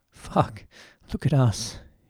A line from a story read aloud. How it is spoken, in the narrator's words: he laughed